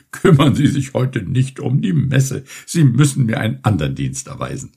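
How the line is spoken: Old sailor laughing. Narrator (German): entgegnete lachend der alte Seemann

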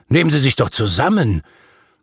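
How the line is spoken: Calling out. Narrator (German): rief ich

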